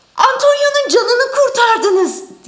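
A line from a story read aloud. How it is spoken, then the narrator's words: Shouted. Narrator (Turkish): diye bağırdı Bassanio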